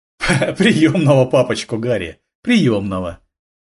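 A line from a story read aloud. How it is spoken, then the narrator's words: Laughing. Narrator (Russian): рассмеялся Рафаэль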